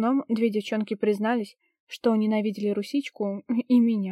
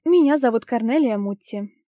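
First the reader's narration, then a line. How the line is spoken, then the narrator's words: Loud formal introduction. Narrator (Russian): громко представилась декан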